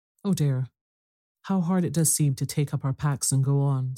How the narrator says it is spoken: sighed Meg

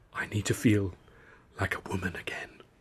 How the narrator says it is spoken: she murmured

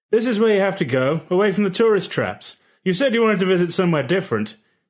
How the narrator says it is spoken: he shouted above the sound of blacksmiths hammering

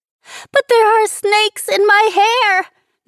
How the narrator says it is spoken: Nicole screeched again

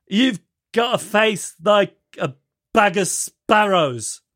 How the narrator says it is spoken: somebody at some point shouts out

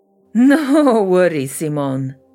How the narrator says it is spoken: Yashira said with a raspy laugh

